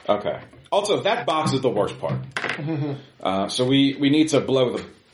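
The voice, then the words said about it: Sudden British accent. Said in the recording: “Why am I suddenly Brit? I changed my accent.”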